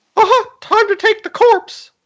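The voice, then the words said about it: Mickey Mouse cartoon voice impression. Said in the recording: “do a Mickey Mouse impersonation? ... we have Mickey Mouse”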